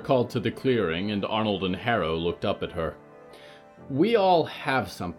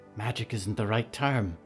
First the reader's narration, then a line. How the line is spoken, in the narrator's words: whispered Harrow